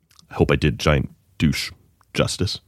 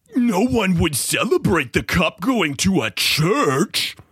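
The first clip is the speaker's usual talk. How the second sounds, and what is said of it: Mocking imitation of a tweeter. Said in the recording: “do my best imitation of what I assume giant douche sounds like”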